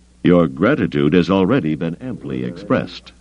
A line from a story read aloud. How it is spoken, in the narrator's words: Carda said dryly